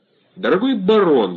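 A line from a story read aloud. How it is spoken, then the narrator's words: Exclaimed. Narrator (Russian): воскликнул он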